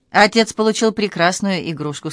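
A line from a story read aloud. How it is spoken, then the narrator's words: Plain. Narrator (Russian): сказала Ясука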